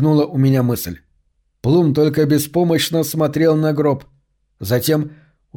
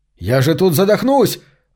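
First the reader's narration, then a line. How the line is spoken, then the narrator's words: Yelling. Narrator (Russian): вопил в это время Макс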